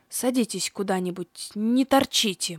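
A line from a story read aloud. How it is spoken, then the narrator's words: Muttered, old man. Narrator (Russian): буркнул старикашка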